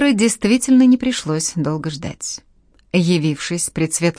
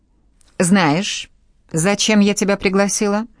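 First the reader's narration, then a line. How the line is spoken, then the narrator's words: Menacing question. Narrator (Russian): Грозно поинтересовалась Анна Сергеевна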